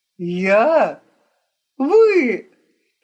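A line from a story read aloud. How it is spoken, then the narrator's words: Loud laughter. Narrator (Russian): дон Марчелло громко расхохотался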